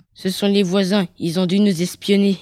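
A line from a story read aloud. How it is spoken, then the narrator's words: Plain. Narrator (French): dit Sacha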